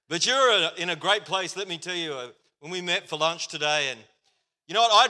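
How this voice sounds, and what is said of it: Australian accent. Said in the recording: “If you can't understand my accent ... I'm going to try my best to sound as Australian as I can”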